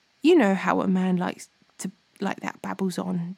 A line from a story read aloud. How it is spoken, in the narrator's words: Jehu replied